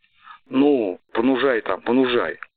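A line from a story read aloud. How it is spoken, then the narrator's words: Angry crowd shouting. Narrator (Russian): Люди злобно ругаясь и крича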